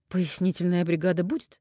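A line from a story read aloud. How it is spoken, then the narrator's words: Satisfied exhale. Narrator (Russian): Наумов с удовлетворением выдохнул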